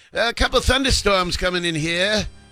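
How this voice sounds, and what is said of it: Imitated Boston accent. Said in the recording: “his Boston would come through”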